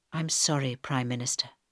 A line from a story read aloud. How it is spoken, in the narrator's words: said Michael softly